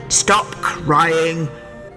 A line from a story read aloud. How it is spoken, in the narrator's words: growled the highwayman